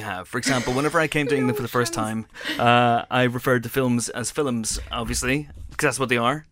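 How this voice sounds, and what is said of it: Irish accent. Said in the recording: “both from the Emerald Isle ... how thick our accents are going to get”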